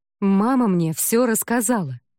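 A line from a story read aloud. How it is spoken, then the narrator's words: Exclaimed. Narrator (Russian): воскликнула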